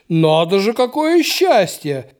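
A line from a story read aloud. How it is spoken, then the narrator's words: Deep bass voice. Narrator (Russian): пробасил Андрей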